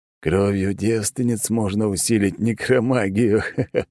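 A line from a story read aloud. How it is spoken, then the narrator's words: Bursting into laughter. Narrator (Russian): не выдержал тот и рассмеялся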